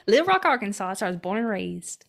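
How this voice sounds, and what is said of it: Exaggerated Arkansas country accent. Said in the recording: “Have you heard this Arkansas? Accent? ... I just got more country.”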